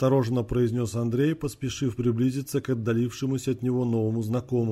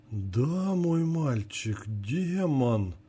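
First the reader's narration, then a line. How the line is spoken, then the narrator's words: Spellbound voice. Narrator (Russian): завороженным голосом ответил Джерри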